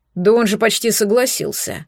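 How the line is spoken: Grumbling bear. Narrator (Russian): пробурчал медведь, но его никто не услышал

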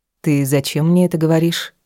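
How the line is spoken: Cold inquiry. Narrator (Russian): холодно поинтересовалась я

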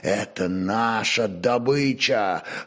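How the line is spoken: Menacing snarl. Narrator (Russian): вновь грозно оскалился Боскурт

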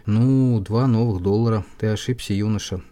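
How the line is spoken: Plain. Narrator (Russian): сказал

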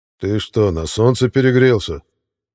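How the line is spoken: Menacing deep-voiced growl. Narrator (Russian): грозным басом прорычал Витязь

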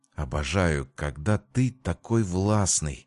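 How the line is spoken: Ardent whisper. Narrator (Russian): жарко прошептала Мими

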